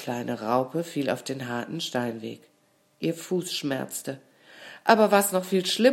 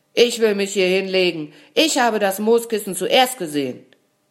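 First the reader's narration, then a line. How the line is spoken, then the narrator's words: Shout. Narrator (German): Er schrie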